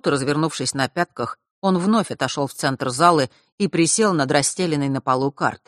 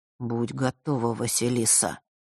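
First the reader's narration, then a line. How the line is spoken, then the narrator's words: Quiet. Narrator (Russian): тихо произнес Миракл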